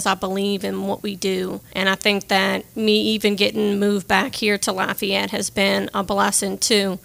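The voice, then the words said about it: Saint Bernard accent, not Cajun. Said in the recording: “doesn't really have a Cajun accent. All this is a Saint Bernard accent”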